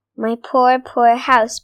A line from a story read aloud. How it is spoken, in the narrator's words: Badger sighed sadly